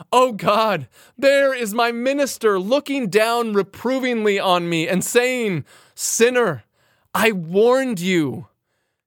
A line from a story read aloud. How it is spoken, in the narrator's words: you will shriek and say